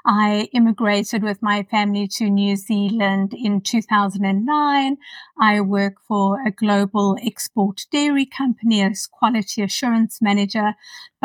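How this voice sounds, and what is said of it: South African accent. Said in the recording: “as you can hear from the accent, am South African”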